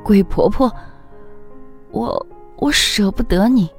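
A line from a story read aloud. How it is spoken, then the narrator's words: Sudden crying. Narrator (Chinese): 翠翠忽然哭出声，说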